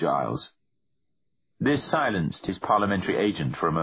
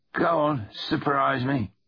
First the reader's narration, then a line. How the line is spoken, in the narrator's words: said Griff with an exaggerated sigh